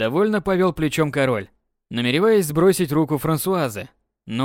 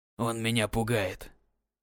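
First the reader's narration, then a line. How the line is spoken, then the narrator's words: Quiet. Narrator (Russian): тихо произнес Людовик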